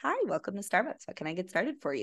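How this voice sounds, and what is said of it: Customer service voice. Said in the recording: “my stern voice is so not my customer service voice.”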